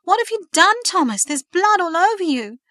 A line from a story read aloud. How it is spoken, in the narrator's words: Wild-eyed, she cried out